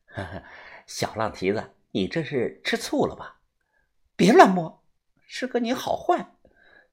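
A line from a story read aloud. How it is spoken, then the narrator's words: Laughing man. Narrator (Chinese): 男的笑了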